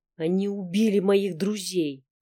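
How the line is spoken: Growled. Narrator (Russian): прорычал

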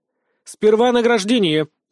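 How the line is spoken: Vicious female bark. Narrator (Russian): злобно рявкнула Мавра

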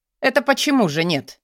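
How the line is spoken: Snide question. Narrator (Russian): ехидно уточнил Ал

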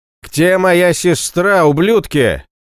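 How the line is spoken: Shout. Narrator (Russian): крикнул я еще раз

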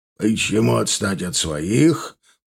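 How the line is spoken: Deep booming voice. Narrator (Russian): Пробасил он

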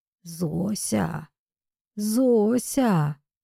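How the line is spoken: Barely audible. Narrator (Russian): Еле слышно раздалось в темноте

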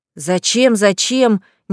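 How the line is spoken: Displeased grumbling. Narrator (Russian): недовольно пробурчала тетя Аня

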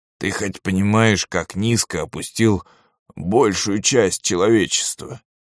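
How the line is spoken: Plain. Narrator (Russian): спросил Ямада-сенсей

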